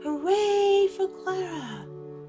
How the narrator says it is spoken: they all shouted

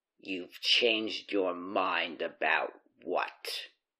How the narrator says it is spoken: Klaus growled

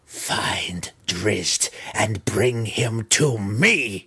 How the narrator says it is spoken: Her voice grating as though her mouth was filled with pebbles, she growled

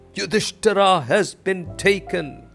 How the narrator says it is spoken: The whole army shouted

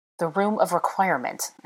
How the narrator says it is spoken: snorted

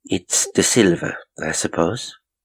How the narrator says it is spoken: she said calmly

